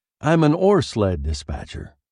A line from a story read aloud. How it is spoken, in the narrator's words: I said